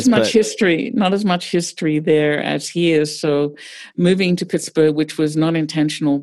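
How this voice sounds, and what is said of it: Australian accent. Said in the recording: “your wonderful accent ... I grew up in Australia”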